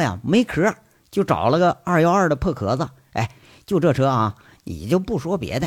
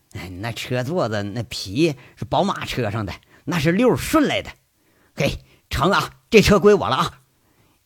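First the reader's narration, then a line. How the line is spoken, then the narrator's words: Delighted. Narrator (Chinese): 杨伟爱不释手的说一句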